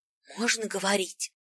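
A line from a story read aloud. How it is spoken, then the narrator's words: Whispered question. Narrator (Russian): шепотом спросил знающий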